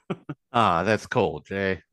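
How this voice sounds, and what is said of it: Put-on African-American voice. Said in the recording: “doing that voice ... You're trying to do an impersonation of an African-American”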